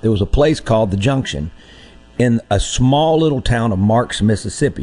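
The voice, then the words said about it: Slightly hoarse voice. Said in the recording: “I'm a little hoarse because last night”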